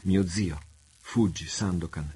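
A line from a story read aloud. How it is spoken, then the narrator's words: Young girl exclaiming. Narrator (Italian): esclamò la giovanetta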